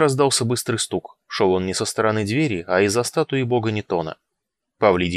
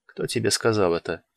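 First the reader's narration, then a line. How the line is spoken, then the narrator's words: Quiet question. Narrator (Russian): тихо спросил Павлидий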